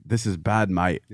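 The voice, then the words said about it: Imitates another person's accent. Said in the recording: “great accent.”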